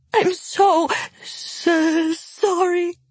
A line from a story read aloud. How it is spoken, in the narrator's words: Nina sobbed